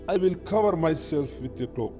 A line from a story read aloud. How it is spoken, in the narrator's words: says the sun